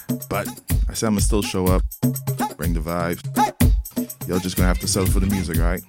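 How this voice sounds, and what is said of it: Congested, sore-throated voice. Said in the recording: “a little bit under the weather today. Got a bit of a sore throat. A little stuffiness.”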